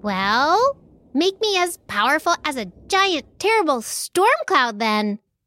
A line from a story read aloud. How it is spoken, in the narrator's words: Mouse squeaked